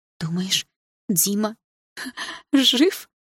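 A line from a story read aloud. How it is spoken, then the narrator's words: Hoarse laugh. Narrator (Russian): хрипло рассмеялась Саша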